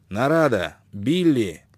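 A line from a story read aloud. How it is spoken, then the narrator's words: Sharp shout. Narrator (Russian): крикнул Шелдон резким голосом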